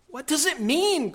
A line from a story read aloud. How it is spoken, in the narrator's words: cried Susan